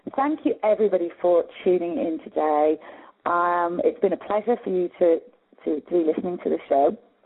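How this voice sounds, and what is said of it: Slightly hoarse voice. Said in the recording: “I'm a bit hoarse now”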